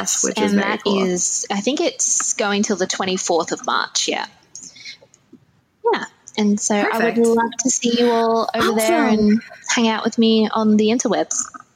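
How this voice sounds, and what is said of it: Australian accent. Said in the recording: “I just love listening to your voice too. I have loved Australian accents for my whole life ... I'm so jealous that your voice is so amazing.”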